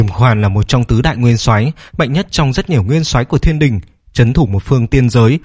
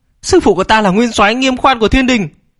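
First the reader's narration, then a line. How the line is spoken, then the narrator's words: Frightened shout. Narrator (Vietnamese): sợ hãi quát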